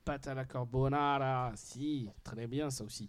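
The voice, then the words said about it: Poor put-on Italian accent. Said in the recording (French): “je prends l'accent italien, surtout qu'il est tout pourri mon accent”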